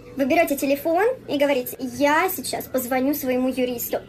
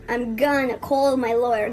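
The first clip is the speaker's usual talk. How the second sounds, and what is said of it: Good put-on American accent. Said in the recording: “Her American accent is actually really good.”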